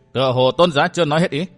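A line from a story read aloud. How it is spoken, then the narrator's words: Cold, faint mocking laugh. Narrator (Vietnamese): Vân Thiên Nhạc vẫn lạnh lùng, cười nhạt nói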